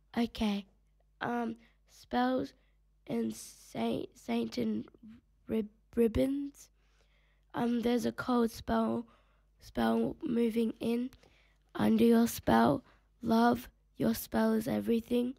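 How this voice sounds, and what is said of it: Sick, congested-sounding voice. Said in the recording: “I'm a little bit sick. That's why my voice sounds like this.”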